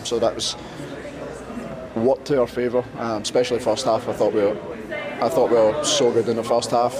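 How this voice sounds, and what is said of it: Speaker's natural foreign accent. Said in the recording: “I was just entranced by the accent. Good accents on this episode.”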